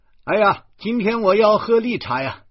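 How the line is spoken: Loud clamoring. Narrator (Chinese): 诗谦嚷嚷

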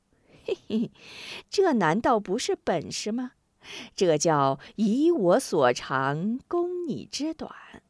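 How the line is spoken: Sly snickering. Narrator (Chinese): 许人仍是嘿嘿奸笑

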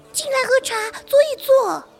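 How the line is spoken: Calling out. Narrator (Chinese): 蜘蛛小姐密斯斯白德喊一声

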